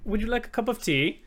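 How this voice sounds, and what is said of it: Put-on English accent. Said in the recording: “You have to do an English accent now. That's your cue to do an English accent.”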